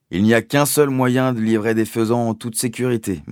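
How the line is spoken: Plain. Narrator (French): m'a-t-il dit

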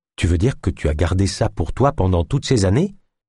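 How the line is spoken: Plain question. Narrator (French): demanda Naya

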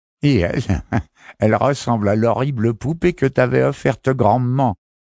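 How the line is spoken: Woman sneering. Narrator (French): ricanait une femme

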